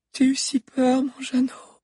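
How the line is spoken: Confessing, holding back a sob. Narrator (French): avoua-t-elle en retenant un sanglot

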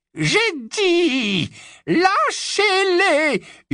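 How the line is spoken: Piercing scream. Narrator (French): hurla d'une voix perçante

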